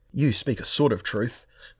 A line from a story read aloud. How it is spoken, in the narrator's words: Moonglum said in a quavering tone, astonished at his own bravery